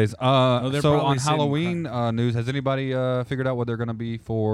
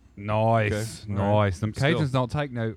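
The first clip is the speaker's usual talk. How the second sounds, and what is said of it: Put-on Australian accent. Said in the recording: “I don't know why I'm doing an Australian accent”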